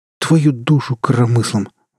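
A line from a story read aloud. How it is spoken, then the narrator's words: Breathless exclamation, daring young man. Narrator (Russian): выдохнул удалец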